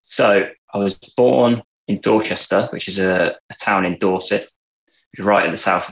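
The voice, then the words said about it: Southern English accent from Dorset. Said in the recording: “people listening to your accent probably can tell it's more, you know, it's closer to mine than theirs... this is not a Lancashire accent. I'm from Dorset originally... I'm a southerner”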